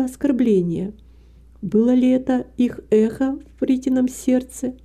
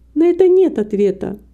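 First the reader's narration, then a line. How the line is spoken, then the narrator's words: Calm. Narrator (Russian): спокойно ответила Рита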